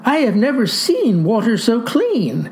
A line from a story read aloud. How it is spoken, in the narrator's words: exclaimed